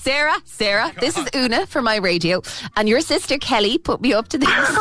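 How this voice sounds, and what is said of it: Usual voice. Nothing is said of it.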